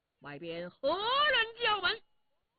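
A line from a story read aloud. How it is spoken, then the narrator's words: Booming, resonant voice. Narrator (Chinese): 这一嗓子声音非常洪亮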